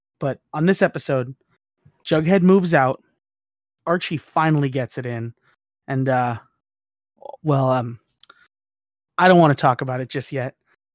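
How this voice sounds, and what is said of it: Solemn, subdued tone. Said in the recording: “my voice is a, a solemn tone today”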